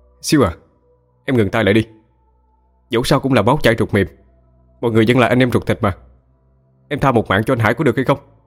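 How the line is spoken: Loud shout. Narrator (Vietnamese): hét lớn

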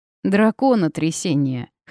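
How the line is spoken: Amused snort. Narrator (Russian): хмыкнула Вита

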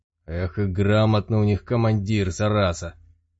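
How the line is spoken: Swearing through gritted teeth. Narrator (Russian): Оружейник матюгнулся сквозь зубы

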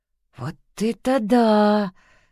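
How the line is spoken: Admiring drawl. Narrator (Russian): восхищенно протянул Марк

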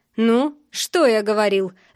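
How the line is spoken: Angry mocking laugh. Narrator (Russian): зло смеется

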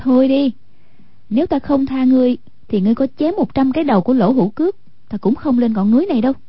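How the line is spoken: Graceful, smiling. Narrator (Vietnamese): Hoàng Dung duyên dáng mỉm cười nói

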